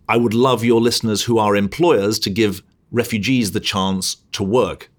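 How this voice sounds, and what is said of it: British accent. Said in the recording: “You still have your accent ... I still have my accent. I still have my patriotic British heart beating.”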